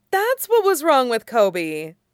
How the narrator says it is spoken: Leia exclaimed

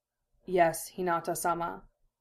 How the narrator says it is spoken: Neji bowed his head lower for a moment and murmured

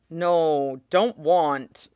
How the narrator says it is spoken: Gino takes the sound of the doorbell as a personal affront, moaning

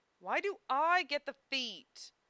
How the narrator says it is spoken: Zellos whined

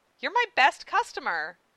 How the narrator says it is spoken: Winry said sweetly

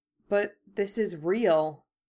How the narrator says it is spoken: Draco said shakily

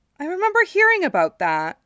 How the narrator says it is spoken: Aerith exclaimed

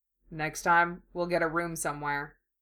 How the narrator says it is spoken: In a much lower voice, he murmurs

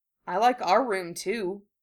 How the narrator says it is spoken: he said softly

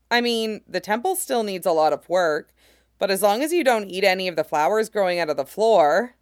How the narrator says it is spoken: laughed

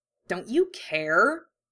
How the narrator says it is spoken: Harry growled, suddenly furious

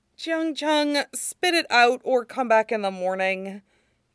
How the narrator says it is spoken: Wei Wuxian sighs

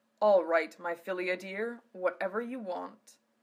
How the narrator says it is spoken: Alan said smoothly

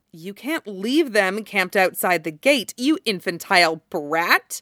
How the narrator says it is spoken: Mei snaps back

